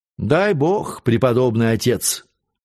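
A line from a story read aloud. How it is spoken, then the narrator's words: Displeased tone. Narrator (Russian): отвечала Урсулинка недовольным тоном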